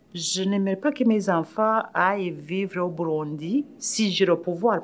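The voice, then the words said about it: Slight African accent. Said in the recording (French): “je garde mon accent quand même un peu africain”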